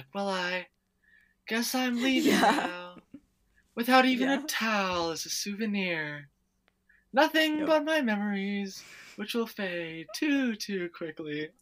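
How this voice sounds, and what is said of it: Imitating Lily's character voice. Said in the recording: “I love doing that voice so much”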